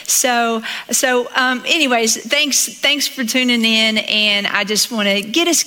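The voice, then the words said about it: Slight Southern US accent. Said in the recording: “I have an accent, so I think I sound a little more Southern, on media than I sound in person”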